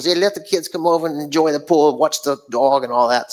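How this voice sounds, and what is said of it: Put-on New York accent. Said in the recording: “he's from New York. ... I don't even know why I just did that accent.”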